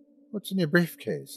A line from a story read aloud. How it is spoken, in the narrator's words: I asked